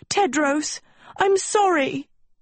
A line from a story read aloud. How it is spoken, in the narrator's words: Sophie cried